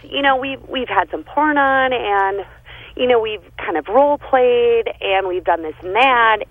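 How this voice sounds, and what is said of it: Midwestern American accent. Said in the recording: “I heard your accent. ... I got the little Midwestern thing going.”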